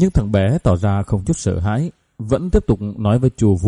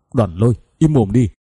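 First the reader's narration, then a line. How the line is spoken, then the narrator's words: Loud shout. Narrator (Vietnamese): La Thiên lớn tiếng quát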